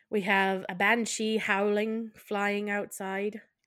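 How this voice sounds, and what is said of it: Briefly slips into a put-on accent. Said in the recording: “I don't know why I went to it into an accent there”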